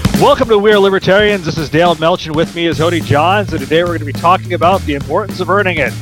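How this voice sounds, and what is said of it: Announcer voice. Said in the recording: “Now I must turn off my announcer voice.”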